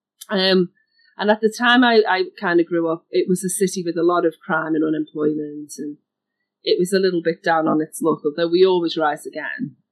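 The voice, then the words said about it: Liverpool English accent. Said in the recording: “I grew up in a city in the UK called Liverpool, which is northwest. You can hear my accent.”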